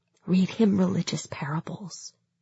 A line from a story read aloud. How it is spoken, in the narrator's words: I whispered to Misha